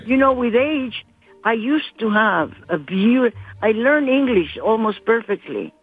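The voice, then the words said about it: Colombian-accented English. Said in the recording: “a lovely Colombian American ... my accent is not horrible? ... your accent's great ... I learned to talk with an accent again”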